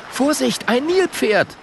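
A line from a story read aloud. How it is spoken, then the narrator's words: Calling out. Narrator (German): ruft Schabako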